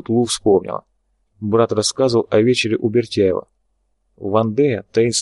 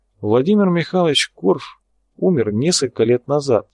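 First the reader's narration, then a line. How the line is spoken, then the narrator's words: Sighing. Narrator (Russian): вздохнул Вячеслав Константинович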